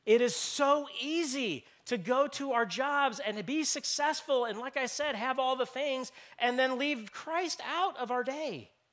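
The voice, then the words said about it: Loud, raised, passionate voice. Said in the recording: “raising my voice because I'm angry. I'm raising my voice because I'm passionate”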